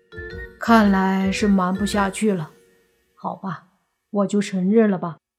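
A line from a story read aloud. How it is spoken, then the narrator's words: Resigned sigh. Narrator (Chinese): 莫凡叹了口气，做出一副无可奈何的样子，说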